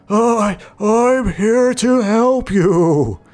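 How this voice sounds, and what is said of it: Dry, raspy, stammering voice. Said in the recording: “He replied in a dry, raspy voice, stammering”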